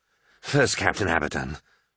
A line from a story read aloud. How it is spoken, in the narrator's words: breathed